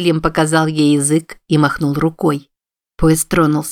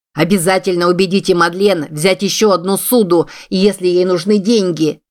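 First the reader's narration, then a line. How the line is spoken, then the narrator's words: Shouting. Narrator (Russian): Джордж закричал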